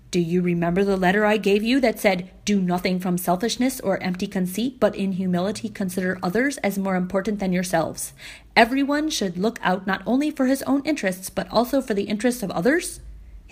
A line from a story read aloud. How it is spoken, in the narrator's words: his dad asked